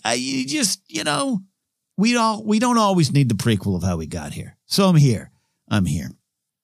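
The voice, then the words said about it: Mob boss voice impression. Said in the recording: “I'm not really doing his voice justice, but he, he does sound like a mob vo- mob boss in the back of an Italian restaurant.”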